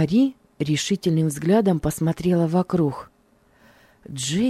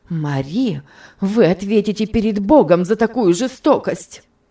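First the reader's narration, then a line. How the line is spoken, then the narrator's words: Passionate exclamation. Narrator (Russian): горячо воскликнула мисс Офелия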